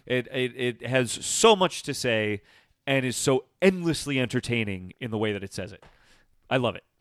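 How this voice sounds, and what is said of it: Enthusiastic, excited voice. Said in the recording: “hear the enthusiasm in my voice. ... Absolutely glowing.”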